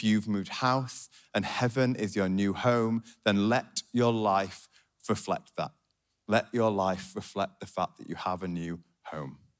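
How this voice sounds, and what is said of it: Yorkshire accent. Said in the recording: “my beautiful Yorkshire accent ... my accent is a sign of where I am from”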